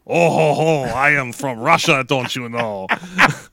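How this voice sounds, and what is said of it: Put-on Russian accent. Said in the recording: “Now for my Russian accent. ... It was so well done.”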